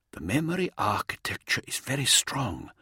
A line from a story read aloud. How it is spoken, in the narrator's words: Weird Mate continued, his voice barely a whisper